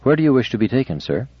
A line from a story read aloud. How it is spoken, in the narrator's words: Giscard said calmly